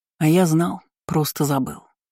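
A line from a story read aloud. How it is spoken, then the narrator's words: Mumbling. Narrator (Russian): пробормотал Айна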